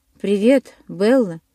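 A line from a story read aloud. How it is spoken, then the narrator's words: Familiar hoarse voice. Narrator (Russian): донесся знакомый хриплый голос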